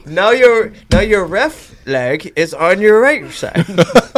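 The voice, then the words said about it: Put-on accent. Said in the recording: “That's an incredible accent.”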